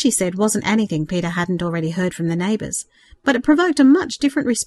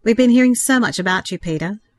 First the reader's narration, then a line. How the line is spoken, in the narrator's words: Rose reiterated with a shy laugh